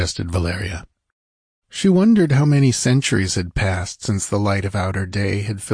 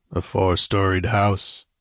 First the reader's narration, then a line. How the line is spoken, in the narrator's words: grunted Conan